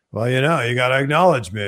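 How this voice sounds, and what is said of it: Imitates another person's voice. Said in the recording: “is that your Roman Reigns impression?”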